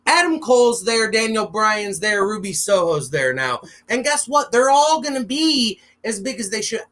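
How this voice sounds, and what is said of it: Loud, ranting delivery. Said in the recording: “I'm probably coming across as I'm yelling. ... I am ranting a tiny bit”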